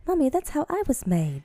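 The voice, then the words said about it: Attempted British accent. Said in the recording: “I can't do the British accent. ... Do it. I want to hear you try.”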